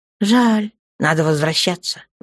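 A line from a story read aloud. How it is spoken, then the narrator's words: Sighing. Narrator (Russian): вздохнул темный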